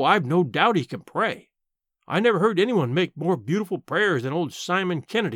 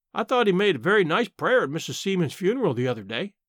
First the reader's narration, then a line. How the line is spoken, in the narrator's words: I said